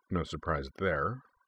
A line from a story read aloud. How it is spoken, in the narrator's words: muttered Beifong under his breath